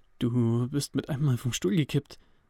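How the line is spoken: Slightly trembling voice. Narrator (German): sagte Toby mit leicht zitternder Stimme

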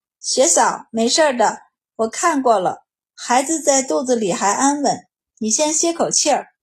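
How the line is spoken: Soothing, smiling. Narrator (Chinese): 他对紧张的崔氏安抚地笑了笑，道

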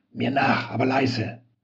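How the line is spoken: Hissed. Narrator (German): zischte der unbekannte Walter zu

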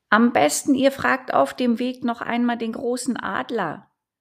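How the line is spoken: Owl calling after. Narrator (German): rief ihnen die Eule hinterher

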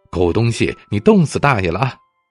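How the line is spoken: Shivering, yelling wildly. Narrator (Chinese): 打着寒战，一路暴喊

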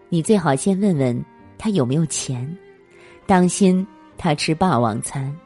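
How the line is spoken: Unhurried, cool. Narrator (Chinese): 女人不急不慢，淡淡的对服务员说

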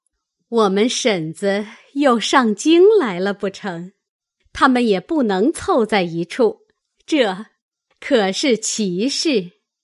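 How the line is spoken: Laughing. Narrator (Chinese): 李纨也笑道

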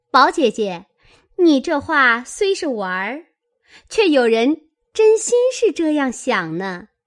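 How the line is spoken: Sly sneering laugh. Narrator (Chinese): 湘云阴笑道

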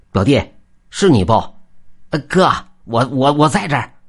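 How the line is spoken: Calling out. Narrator (Chinese): 边走还边叫

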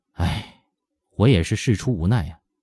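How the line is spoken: Embarrassed helpless sigh. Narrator (Chinese): 他不禁涨红了脸，无可奈何的叹息一声说

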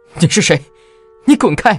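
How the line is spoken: Hysterical screaming. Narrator (Chinese): 我歇斯底里的大喊

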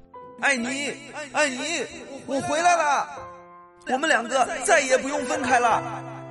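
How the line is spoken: Excited shouting while running. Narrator (Chinese): 兴奋的跑了起来，一边跑还一边高喊着

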